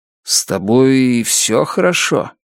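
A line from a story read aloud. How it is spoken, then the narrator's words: Hissing. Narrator (Russian): Она зашипела на него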